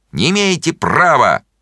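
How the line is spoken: Distant shout. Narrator (Russian): Миша Горбунов кричал из переулка

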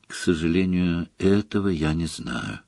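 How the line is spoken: Soft. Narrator (Russian): мягко сказал Дамблдор

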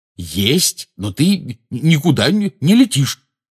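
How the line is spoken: Angry declaration. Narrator (Russian): сердито заявил Рон

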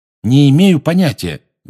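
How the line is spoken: Loud. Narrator (Russian): громко сказал Гарри

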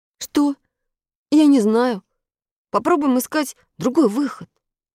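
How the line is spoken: Uncertain answer, boy. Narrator (Russian): неуверенно ответил мальчик

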